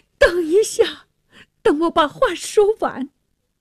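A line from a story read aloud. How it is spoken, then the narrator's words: Pleading. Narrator (Chinese): 那沙尔哀求着说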